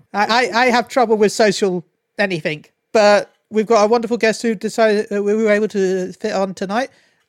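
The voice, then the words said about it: British accent. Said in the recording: “I have the advantage of having a British accent and in America”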